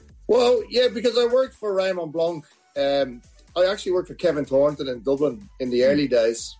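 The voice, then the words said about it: Irish accent. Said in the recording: “still got the Irish accent, though”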